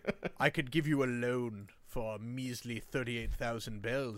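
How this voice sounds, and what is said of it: Jeremy Irons impression as Tom Nook. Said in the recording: “it's just Jeremy Irons like”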